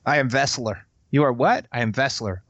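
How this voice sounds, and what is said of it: Put-on Russian accent. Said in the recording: “Just the Russian accent.”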